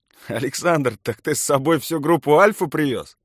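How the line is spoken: Laughing. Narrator (Russian): смеялся Руслан

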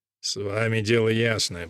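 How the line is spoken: Mumbling downward. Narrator (Russian): бормочет отец Гарсия, словно разговаривает со столом

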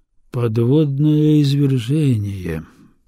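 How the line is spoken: Drawn out. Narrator (Russian): протянул Арбидалочек

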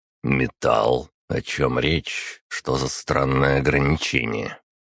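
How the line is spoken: Level-toned question. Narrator (Russian): ровным тоном спросил

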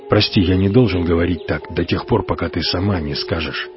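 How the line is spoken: Muttering, altered voice. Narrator (Russian): пробормотал Франциско изменившимся голосом

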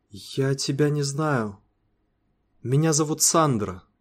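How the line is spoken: Quiet reply. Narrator (Russian): тихо ответила

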